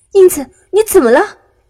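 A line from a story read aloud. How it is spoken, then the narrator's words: Loud cry. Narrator (Chinese): 安培公子大叫一声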